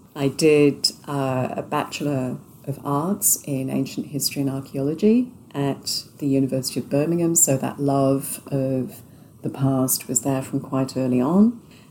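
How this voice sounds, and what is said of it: British accent. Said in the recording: “as you can probably tell from the accent, I grew up and was educated in the UK”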